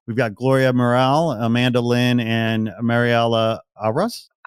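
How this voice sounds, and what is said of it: American accent on Spanish names. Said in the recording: “Excuse my gringo accent here. I can't roll my tongue. I'm too white.”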